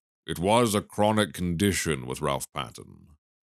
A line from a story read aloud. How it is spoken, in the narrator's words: said dryly